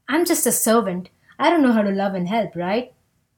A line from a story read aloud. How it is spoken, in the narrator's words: said the fridge